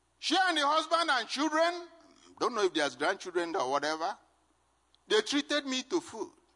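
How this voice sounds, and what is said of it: Strong non-native English accent. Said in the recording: “my accent that is still bad, but a lot worse than then”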